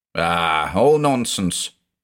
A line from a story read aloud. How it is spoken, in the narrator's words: slurred Balazs